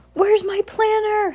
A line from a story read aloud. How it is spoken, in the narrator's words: Heidi shouted